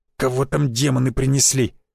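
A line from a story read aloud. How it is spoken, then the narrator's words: Hissed. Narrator (Russian): прошипел Авдеев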